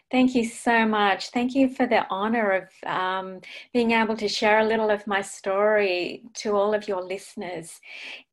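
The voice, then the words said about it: Australian accent. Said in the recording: “she comes to us from Australia, so we get to hear her lovely accent”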